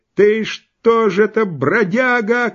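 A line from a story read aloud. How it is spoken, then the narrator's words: Woman shouting into shrieks. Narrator (Russian): кричала баба, доходя в некоторых словах до полного визгу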